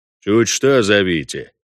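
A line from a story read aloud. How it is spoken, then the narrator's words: Grumble. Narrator (Russian): проворчал Вольво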